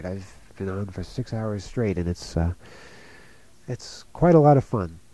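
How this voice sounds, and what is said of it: Tired-sounding voice. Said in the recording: “I'm sorry if I sound tired, but I am tired.”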